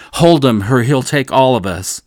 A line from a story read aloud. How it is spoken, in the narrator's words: he shouted